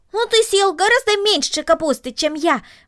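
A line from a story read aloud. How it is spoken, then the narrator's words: Exclaimed. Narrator (Russian): воскликнул Макс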